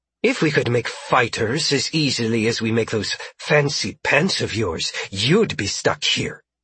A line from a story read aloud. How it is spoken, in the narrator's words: she snapped